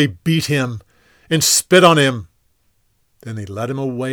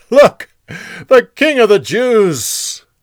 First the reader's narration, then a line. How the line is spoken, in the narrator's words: They laughed and said